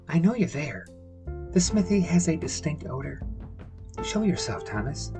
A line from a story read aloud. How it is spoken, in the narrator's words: quietly called